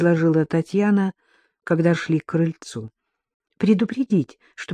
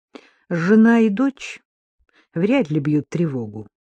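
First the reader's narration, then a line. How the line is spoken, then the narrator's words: Plain. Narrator (Russian): сказал он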